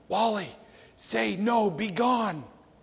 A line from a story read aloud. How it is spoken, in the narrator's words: the prompter off stage whispered loudly